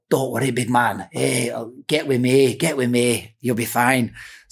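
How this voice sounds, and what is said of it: Bad Scottish accent impression. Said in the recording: “It's a bad Scottish accent. ... Did he become Irish?”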